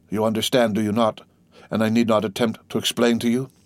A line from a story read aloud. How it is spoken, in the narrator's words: said Faria, in a resigned tone